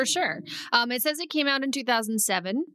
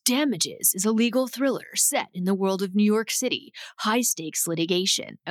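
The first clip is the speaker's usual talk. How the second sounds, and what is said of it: Impression of Wells' voice. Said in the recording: “should I do the Wells voice? ... that's all I can do in the Wells voice”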